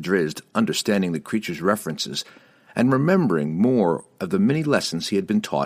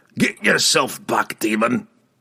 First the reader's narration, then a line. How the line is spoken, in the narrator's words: he growled